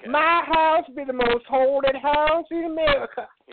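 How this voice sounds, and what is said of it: Put-on American Southern accent. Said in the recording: “An English guy doing a southern accent.”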